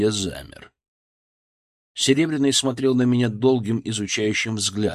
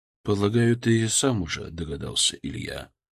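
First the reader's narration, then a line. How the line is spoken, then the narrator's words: Quiet. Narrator (Russian): произнес он негромко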